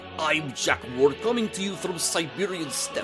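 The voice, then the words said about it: Put-on Russian-style accent. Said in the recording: “you're not even from Siberia, especially with that accent.”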